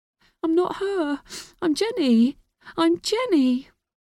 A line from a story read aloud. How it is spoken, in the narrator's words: She whimpered